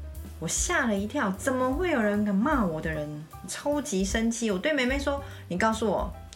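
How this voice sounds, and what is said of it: Usual voice. Nothing is said of it.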